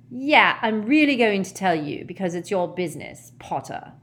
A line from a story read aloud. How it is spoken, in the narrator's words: sneered Malfoy